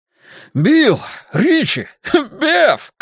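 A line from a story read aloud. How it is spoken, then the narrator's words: Surprised shout, laughing. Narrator (Russian): крикнул он и расхохотался от удивления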